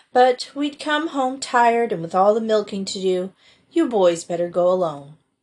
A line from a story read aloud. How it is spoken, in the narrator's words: sighed Felicity